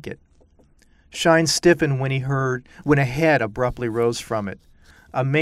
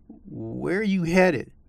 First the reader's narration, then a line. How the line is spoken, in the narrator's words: the man said